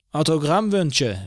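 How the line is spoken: Call. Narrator (German): rief Eugene

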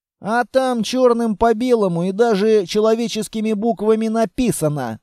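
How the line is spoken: Plain. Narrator (Russian): сказал Амбал

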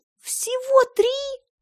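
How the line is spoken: Squeal. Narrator (Russian): Я даже взвизгнула

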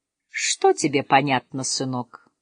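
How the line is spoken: Gentle question. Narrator (Russian): ласково спросил Олег

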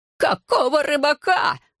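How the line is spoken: Falsetto shout. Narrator (Russian): фальцетом крикнул надзиратель

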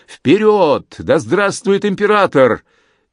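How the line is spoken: Excited triumphant shout. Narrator (Russian): Возбужденный своим успехом и успехом товарищей по оружию, Анри закричал

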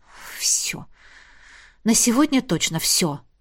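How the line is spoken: Muttering. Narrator (Russian): пробормотала

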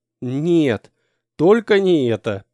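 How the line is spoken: Moaning. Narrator (Russian): простонал

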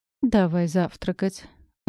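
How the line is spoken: Tired sigh. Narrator (Russian): устало вздохнул Рэй

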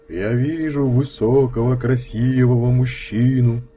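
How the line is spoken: Sepulchral singsong chant. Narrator (Russian): заговорил я нараспев загробным голосом

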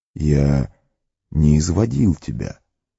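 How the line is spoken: Calm. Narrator (Russian): спокойно сказал маг

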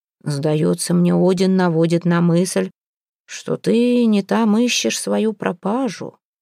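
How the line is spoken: Soft remark. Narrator (Russian): мягко заметил Модельф

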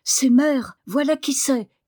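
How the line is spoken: Shouted. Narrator (French): cria-t-il

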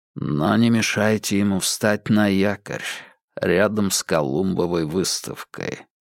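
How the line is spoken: Flat lifeless tone. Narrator (Russian): произнес он тем же ровным безжизненным тоном

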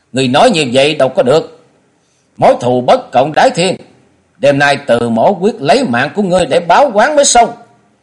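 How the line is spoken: Angry loud shout. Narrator (Vietnamese): Bạch Lộc thư sinh có vẻ giận dữ quát to lên

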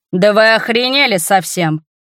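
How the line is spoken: Roaring. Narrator (Russian): взревел

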